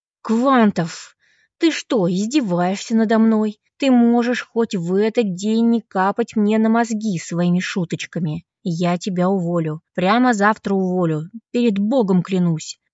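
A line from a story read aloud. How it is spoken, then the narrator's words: Hissed quietly, boss. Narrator (Russian): прошипел шеф, чтобы его мог слышать только я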